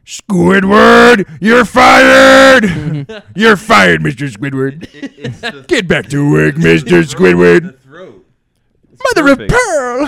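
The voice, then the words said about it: Cartoon crab character voice. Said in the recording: “the Mr. Krabs impersonation... Can we get a Mr. Krabs?... Throat game on fleek.”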